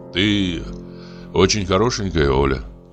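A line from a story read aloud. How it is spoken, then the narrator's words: Sighing. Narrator (Russian): вздохнул я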